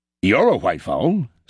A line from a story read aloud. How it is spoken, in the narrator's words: said the farmer